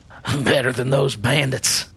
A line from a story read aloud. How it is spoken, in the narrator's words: he chuckled a bit